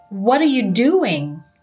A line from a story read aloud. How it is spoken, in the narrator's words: Jason yelled